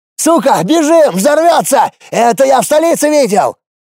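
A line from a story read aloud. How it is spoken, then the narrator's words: Soldier yelling. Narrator (Russian): заорал один из бойцов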